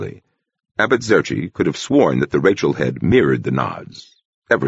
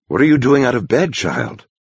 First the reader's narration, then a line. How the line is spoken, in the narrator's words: he breathed